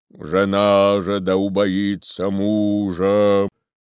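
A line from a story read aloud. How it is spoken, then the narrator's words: Booming deep powerful voice. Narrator (Russian): Громадный протодиакон трубил нечеловечески густым, могучим и страшным голосом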